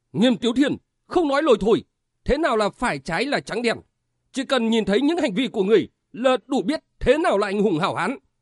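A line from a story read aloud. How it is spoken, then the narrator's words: Angry loud shout. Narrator (Vietnamese): Khang Nghênh Sơn trừng mắt quát lớn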